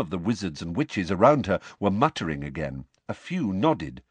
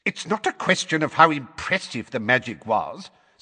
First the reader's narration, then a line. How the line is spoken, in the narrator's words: said Fudge in a testy voice